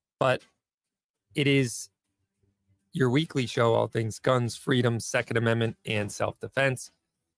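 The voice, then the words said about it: Strained, struggling voice. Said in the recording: “I'm struggling. ... My voice is a mess”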